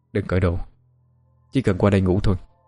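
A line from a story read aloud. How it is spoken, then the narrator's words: Cold. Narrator (Vietnamese): Giọng lạnh lùng nói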